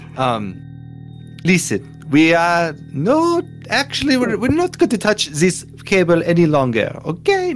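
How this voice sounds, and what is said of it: Put-on faux French accent. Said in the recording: “I don't know how my what my accent is anymore. Um, I'm doing Borat now ... it's supposed to be French”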